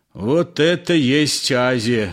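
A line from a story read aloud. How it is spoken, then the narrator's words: Angry. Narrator (Russian): сердито сказал Триухов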